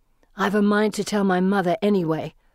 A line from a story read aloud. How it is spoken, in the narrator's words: Felicity snarls